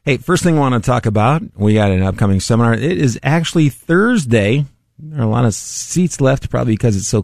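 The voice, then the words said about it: Strained, fading voice. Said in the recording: “wow. I'm losing my my voice. ... Maybe too much turkey does that. ... Cause you to lose your voice.”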